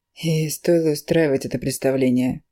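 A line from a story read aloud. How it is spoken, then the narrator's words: Weary question. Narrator (Russian): устало спрашивает Дика Крис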